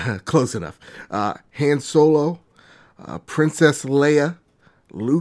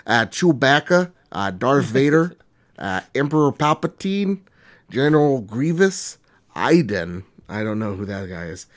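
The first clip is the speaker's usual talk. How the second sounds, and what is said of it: Put-on Minnesotan accent. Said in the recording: “I'll do it in my Minnesotan accent.”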